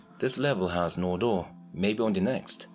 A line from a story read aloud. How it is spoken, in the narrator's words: asks Dex